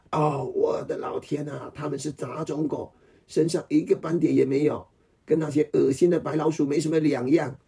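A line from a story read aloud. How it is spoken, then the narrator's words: Wicked astonished cry. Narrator (Chinese): 他邪恶惊讶的叫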